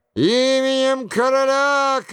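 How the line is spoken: Thunderous shout. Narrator (Russian): кричал Крильон громовым голосом

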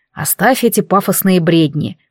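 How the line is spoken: Young man snorting. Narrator (Russian): фыркнул парень

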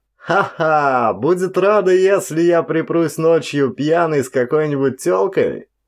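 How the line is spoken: Laughing. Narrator (Russian): Патрик рассмеялся

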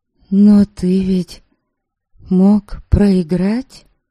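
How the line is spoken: Timid remark. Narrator (Russian): Наконец робко заметила я

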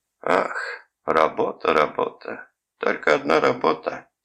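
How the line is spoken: Sad lament. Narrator (Russian): сетовал джентльмен, печально

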